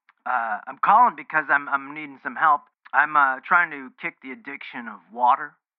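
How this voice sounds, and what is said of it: Rough, hoarse voice. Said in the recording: “excuse my voice. It's a little rough.”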